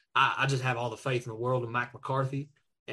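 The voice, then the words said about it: Good put-on Texas accent. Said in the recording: “That was as good of a Texas accent. It was nowhere close to Jerry, but that's a good Texas accent ... That's a very good Texas accent.”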